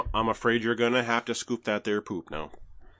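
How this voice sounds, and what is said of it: Put-on Minnesota twang accent. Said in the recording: “You gotta get the twang. Gotta get the twang in there for it to work. ... No, that is Minnesota. ... That's Minnesota and the south side of Milwaukee.”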